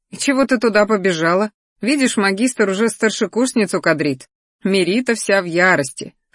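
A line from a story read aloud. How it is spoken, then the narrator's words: Chuckling. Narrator (Russian): хохотнул он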